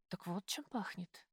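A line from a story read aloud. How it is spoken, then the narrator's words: Whispering. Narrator (Russian): прошептала я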